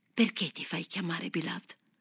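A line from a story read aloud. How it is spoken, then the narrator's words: Whispered. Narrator (Italian): sussurrò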